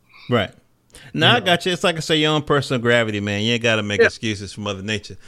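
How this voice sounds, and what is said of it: North Carolina Southern accent. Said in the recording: “my North Carolina accent coming out. I can't say that last OR.”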